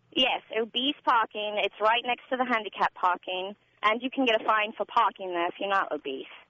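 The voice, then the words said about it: Chicago accent. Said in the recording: “I recognized your Chicago accent. ... you kept the accent”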